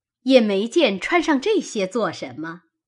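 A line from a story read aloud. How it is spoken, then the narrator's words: Laughing. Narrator (Chinese): 王夫人因而笑道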